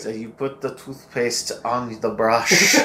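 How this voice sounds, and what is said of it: Imitates a German-accented narrator voice. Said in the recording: “I love his narration of these trailers ... It sounds like your Nazi war criminal grandfather narrating ... I can't even do his voice ... That was pretty good.”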